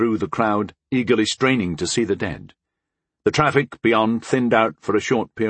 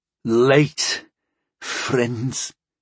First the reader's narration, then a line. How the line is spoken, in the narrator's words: Muluk rasped with a weak smirk